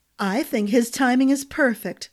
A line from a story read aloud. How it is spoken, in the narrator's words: Glynna said with a chuckle